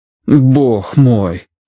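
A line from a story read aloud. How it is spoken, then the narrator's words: Stunned, disgusted exhalation. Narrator (Russian): выдохнул Смайт в ошеломленном отвращении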